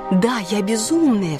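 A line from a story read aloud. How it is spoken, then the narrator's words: Joyful cry. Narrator (Russian): вскричала я радостно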